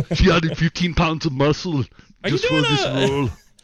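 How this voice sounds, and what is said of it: Put-on German-Austrian accent. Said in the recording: “I'm hearing a combination of Werner and Arnold coming together ... I guess I have one German slash Austrian accent.”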